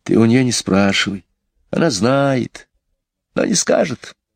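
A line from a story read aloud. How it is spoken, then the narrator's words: Whisper. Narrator (Russian): прошептала Джейн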